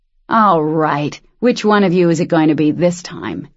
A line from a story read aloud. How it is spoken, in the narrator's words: he snarled